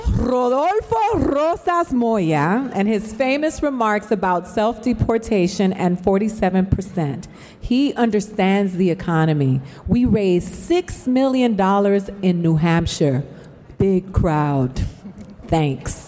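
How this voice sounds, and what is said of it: Latina accent. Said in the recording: “my Latina accent”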